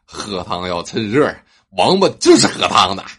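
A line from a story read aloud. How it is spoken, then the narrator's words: Slight smile. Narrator (Chinese): 厨师微微一笑，道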